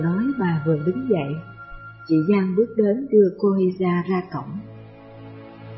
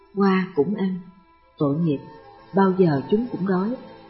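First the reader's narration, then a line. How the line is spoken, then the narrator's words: Smiling mutter. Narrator (Vietnamese): Bà mỉm cười lẩm bẩm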